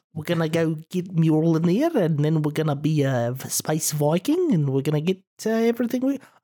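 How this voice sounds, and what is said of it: Imitated accent, sounds South African. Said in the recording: “I've got this funny accent ... I can't really do it right. I sound kind of South African.”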